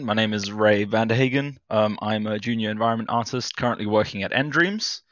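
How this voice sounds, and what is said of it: South African accent. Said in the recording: “I am from South Africa, hence the accent”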